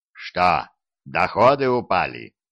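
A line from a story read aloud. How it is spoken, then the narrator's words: Growl. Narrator (Russian): рыкнул на него Диффенбахи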